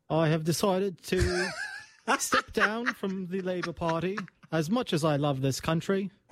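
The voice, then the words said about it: British prime minister impression. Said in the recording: “that Keir Starmer impression ... tell us that you're resigning again as a British Prime Minister”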